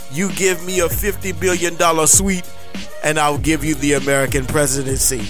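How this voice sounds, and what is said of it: Vladimir Putin impression. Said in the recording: “my Vladimir Putin impersonation”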